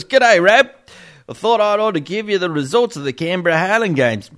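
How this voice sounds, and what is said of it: Strong put-on Australian accent. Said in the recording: “That's a massive Australian accent.”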